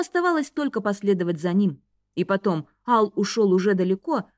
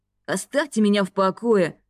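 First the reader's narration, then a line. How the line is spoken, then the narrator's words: Bark. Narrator (Russian): рявкнул Ал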